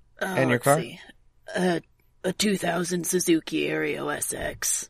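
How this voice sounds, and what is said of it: Fairly good Vin Diesel impression. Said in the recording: “Vin Diesel voice ... That wasn't bad ... a pretty good impression”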